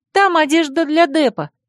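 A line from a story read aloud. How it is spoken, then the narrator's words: Girl's squeak. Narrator (Russian): пискнула рыжая девочка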